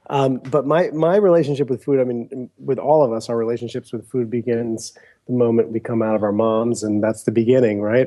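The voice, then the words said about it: Congested, stuffed-up voice from a cold. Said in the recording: “I've got a little bit of a cold, so if I sound kind of stuffed up”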